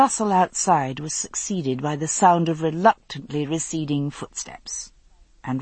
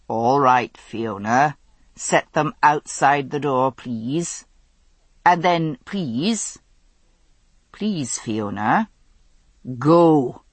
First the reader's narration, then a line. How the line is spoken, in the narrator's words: feeling himself able to answer without foaming at the mouth, he said calmly